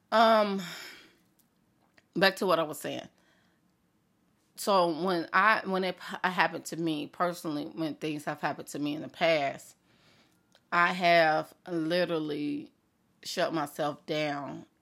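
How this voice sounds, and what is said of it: Congested, clogged-sounding voice. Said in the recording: “I want to sound like I'm clogged”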